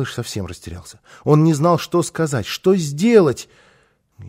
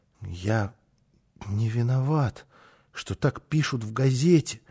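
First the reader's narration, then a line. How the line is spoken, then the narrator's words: Mumbled. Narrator (Russian): пробормотал снова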